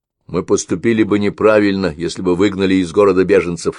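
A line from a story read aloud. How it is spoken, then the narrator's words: Plain. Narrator (Russian): сказал он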